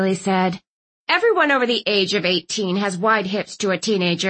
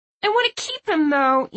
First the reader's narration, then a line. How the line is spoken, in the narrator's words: Younger Bay whined